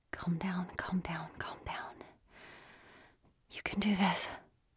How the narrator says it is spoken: whispering

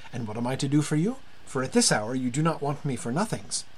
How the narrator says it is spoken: he said cheerfully

